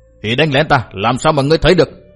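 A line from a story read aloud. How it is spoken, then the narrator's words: Furious shouting. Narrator (Vietnamese): Cát Đạt Tổ cả giận quát tháo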